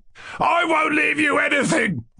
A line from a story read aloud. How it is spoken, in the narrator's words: cried Lebediev furiously